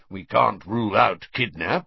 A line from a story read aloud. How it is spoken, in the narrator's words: growled Moody